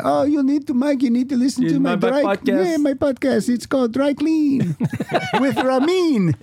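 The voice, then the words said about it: Put-on foreign accent. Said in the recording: “What country is he from? ... doing a voice”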